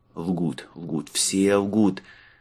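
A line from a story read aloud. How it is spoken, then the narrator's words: Irritated muttering. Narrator (Russian): в раздражении пробормотал он своему компульту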